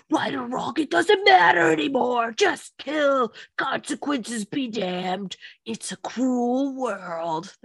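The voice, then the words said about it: Imitates a character's voice. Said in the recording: “That was my Aaron impression. ... That was pretty good. You gotta add Mamma Mia in that voice after”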